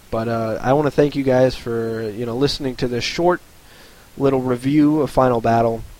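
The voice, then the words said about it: Strained, fading voice. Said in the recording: “my voice is starting to go already”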